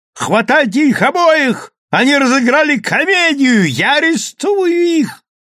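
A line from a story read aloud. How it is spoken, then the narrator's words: Policeman yelling. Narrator (Russian): вопил полицейский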